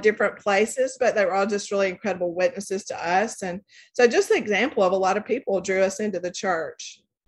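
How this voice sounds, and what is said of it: Southern US accent. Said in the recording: “Great accent, by the way. I think everyone should appreciate your good Southern accent from Coleman, Alabama”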